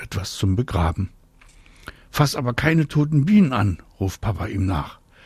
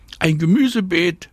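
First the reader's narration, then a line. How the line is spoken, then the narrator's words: Calling back. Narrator (German): ruft Anna zurück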